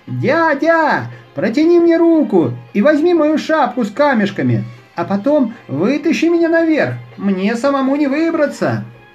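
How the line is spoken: Shout. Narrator (Russian): он крикнул

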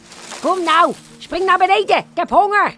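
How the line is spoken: Impatient crocodile calling. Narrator (Dutch): werd de krokodil ongeduldig en hij riep

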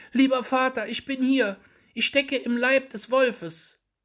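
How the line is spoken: Calling out. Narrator (German): Daumestick rief

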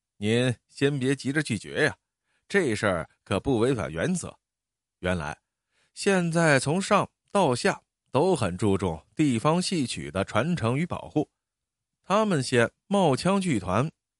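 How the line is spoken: Smiling. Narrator (Chinese): 孙团长笑着说

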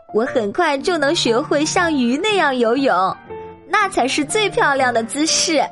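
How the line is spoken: Laughing. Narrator (Chinese): 托马斯笑着说

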